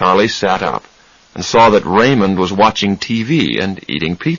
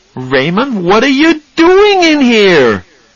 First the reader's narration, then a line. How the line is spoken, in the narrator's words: shouted